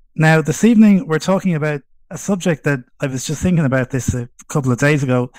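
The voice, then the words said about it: Strong Irish accent. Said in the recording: “the strong Irish accent, I'm coming to you from Dublin.”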